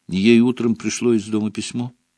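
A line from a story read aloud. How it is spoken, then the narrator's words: Quiet answer. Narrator (Russian): тихо ответила за подругу Парвати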